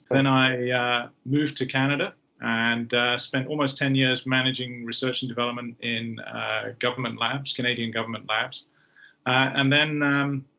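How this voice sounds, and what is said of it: British accent. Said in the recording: “my first 23 years were in the British Armed Forces. You can probably tell from the accent.”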